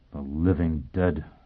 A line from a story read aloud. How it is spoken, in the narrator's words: Foyle muttered